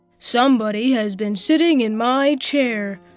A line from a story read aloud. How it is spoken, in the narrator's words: said the great, huge Papa Bear in his great, rough, gruff voice